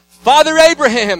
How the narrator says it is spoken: he called out

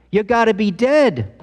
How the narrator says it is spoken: In the back of the room, a 5-year-old boy shouted

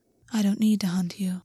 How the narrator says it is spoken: August said quietly

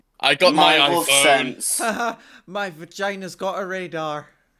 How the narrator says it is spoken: she starts laughing, like

